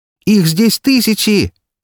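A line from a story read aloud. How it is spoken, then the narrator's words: Trapped, panicked shout. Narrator (Russian): закричала попавшая в ловушку серпента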